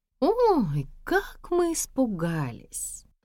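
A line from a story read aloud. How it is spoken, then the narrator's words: Mocking drawl. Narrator (Russian): Насмешливо протянула Надежда Николаевна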